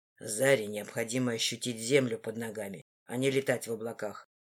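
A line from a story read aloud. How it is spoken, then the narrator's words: Cold, dismissive. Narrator (Russian): заявил холодно и с пренебрежением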